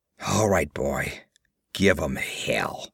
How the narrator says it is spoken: muttered

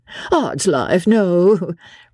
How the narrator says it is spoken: replied Blakeney, with a laugh

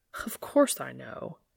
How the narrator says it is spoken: he scoffs

